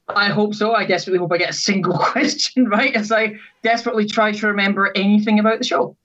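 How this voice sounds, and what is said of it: Scottish accent. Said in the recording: “Scotland ... As you can tell, possibly by your accent a little bit. ... My accent does slightly give it away”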